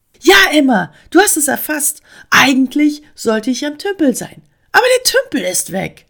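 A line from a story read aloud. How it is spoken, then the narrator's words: Excited frog reporting. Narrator (German): berichtete der Frosch ganz aufgeregt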